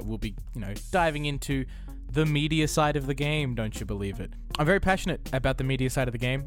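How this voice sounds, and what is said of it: Australian accent. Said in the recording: “down here in Australia. Couldn't you tell from my accent?”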